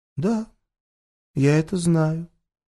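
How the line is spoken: Surprisingly calm. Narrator (Russian): Юля на удивление спокойно произнесла

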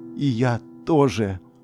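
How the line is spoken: Tearful smiling voice. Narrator (Russian): улыбаясь сквозь слезы, сказала я

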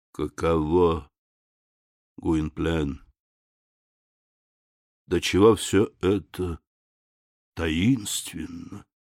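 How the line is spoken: Under the breath. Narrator (Russian): Урсус произнес вполголоса

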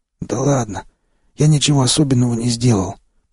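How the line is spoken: Hoarse, anger forgotten. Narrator (Russian): прохрипел я, забыв о своей недавней злости

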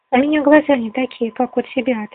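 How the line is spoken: Plain. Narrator (Russian): ответила она

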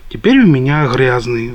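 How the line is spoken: Sighing. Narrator (Russian): вздохнул

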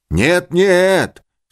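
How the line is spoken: Shouting. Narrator (Russian): снова закричал он

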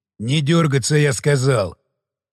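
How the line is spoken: Barked. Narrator (Russian): рявкнул Борис

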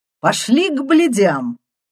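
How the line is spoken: Cheerful shout. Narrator (Russian): весело выкрикнул

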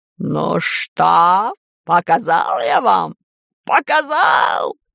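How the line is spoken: Hoarse rasp. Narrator (Russian): прохрипел

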